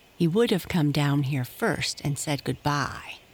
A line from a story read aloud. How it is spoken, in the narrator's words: replied Happy Jack